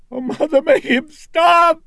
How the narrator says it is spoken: Reagan was screeching

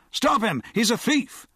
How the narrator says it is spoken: Pierce shouted

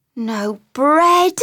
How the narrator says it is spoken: groaned Mole dolorously

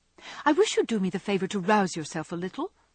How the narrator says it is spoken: said sharply

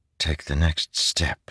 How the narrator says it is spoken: he whispered

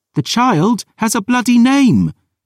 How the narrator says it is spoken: Dior snapped

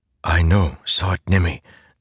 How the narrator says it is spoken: Zeth whispered

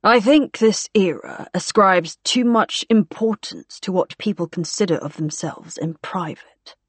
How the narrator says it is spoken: said very coolly

